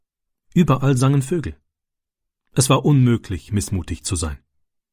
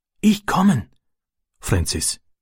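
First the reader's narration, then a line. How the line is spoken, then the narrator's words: Whisper. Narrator (German): flüsterte er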